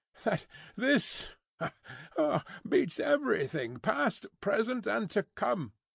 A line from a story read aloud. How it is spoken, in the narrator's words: laughed Stryver with a vexed laugh